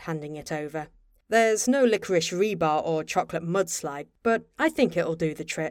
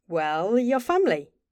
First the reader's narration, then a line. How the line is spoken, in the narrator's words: Bobby answered, smiling brightly